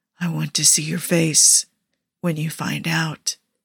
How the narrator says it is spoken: he whispers

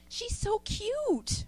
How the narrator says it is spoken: Franny squealed

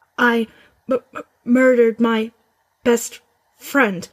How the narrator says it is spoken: Weasley stammered in the same toneless voice

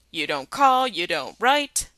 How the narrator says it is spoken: Chad bellowed into his ear

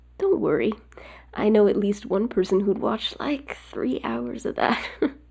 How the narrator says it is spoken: Buck says, laughing

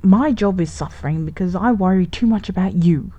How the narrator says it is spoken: he said angrily

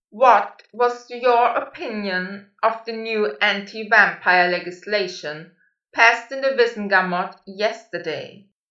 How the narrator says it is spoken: Malfoy had mastered letting his voice boom out from different directions without moving his lips

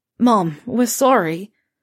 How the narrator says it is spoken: Fred calls out miserably

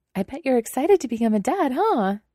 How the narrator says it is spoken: cheerfully asks

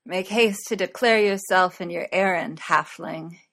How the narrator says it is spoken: he slurred

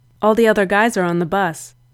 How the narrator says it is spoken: he said

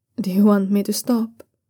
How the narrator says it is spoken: Zhao Yunlan asks gently

